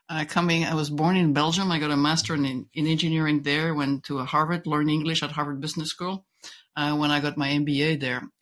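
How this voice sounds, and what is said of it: English with a slight French accent. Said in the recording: “you may wonder by now what the accent is coming from. So it's a little bit of a French twist.”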